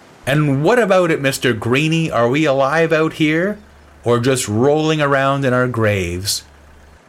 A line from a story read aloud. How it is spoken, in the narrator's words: I shouted out to the sea